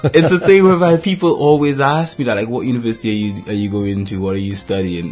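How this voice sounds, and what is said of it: Non-British foreign accent. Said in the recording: “you can tell my accent isn't British ... he's a foreigner”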